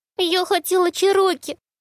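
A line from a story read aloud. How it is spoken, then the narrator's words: Sobbing. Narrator (Russian): всхлипнула она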